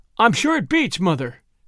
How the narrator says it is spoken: cried the girl

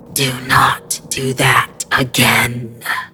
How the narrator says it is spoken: hissed through one hole, working to produce the sound

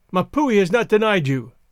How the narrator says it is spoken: he cried

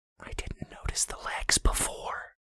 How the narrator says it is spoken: Brandy whispered

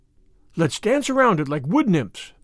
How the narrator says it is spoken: cried Anne

